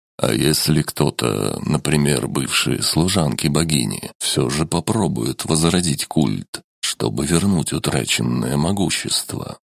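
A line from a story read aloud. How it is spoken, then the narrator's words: Plain. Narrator (Russian): спросил он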